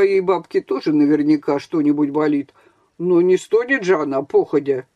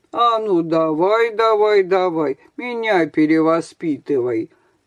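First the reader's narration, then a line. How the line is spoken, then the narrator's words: Mocking singsong. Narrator (Russian): насмешливо пропел Женя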